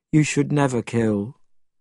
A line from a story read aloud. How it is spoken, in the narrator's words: said Tripitaka sadly